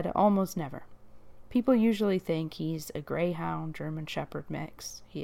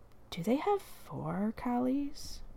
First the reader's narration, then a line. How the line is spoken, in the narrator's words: One said quietly to the other